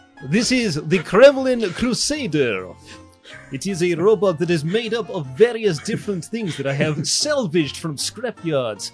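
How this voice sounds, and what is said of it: Put-on Russian accent. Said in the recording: “I am Russian due to my flawless accent.”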